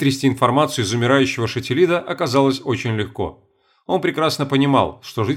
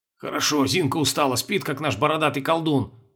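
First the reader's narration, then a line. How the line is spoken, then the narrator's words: Grumbling. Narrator (Russian): бурчал Петр Иванович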